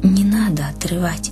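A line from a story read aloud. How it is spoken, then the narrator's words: Faint whisper in ear. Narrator (Russian): словно шепнул кто-то Риме на ухо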